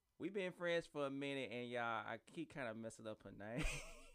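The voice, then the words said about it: Country American accent. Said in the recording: “It's my accent, y'all. I'm country.”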